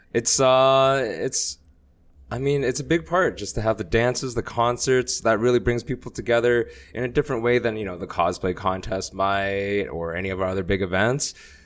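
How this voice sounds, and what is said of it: Slightly hoarse, strained voice. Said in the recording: “my voice is a little shot”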